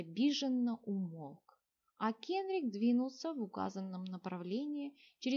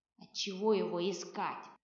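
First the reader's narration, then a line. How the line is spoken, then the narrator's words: Grumbling. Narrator (Russian): пробурчал посох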